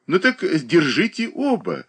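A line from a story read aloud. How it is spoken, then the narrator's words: Laughing. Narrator (Russian): засмеялась Катерина Александровна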